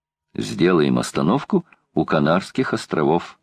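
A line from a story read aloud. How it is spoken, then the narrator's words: Plain. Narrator (Russian): ответил Гленарван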